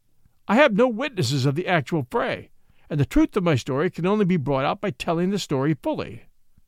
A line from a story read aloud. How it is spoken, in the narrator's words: Watson pleaded